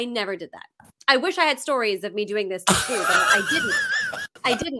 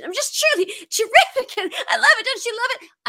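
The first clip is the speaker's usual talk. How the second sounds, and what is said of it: Imitates another person's voice. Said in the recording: “I'll do it as Liza. Here's my Liza Minnelli impression.”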